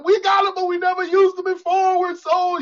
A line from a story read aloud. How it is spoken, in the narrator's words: the people yelling